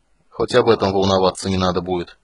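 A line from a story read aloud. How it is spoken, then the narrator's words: Gloomy summing up. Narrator (Russian): мрачно подытожил Танис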